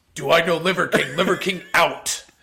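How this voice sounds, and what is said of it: Imitates another person's voice. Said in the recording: “That was a great impression.”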